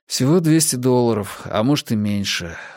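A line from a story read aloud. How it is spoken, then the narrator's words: Sigh. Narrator (Russian): вздохнул я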